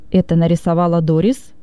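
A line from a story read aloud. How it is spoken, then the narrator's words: Plain. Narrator (Russian): спросила она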